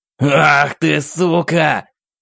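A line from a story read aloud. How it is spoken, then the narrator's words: Furious roar. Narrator (Russian): взревел Аверин, его гнев был почти осязаемым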